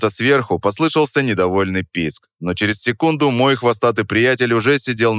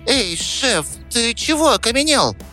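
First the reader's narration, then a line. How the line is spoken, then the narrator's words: Squeaked close to ear. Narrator (Russian): пискнул Рат над ухом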